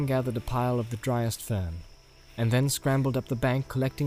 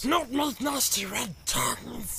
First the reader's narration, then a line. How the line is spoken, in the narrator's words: hissed Gollum